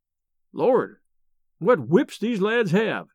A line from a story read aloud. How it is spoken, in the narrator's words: exclaimed Merritt